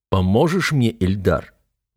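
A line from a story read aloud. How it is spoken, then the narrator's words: Steely tone. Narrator (Russian): стальным тоном спрашиваю я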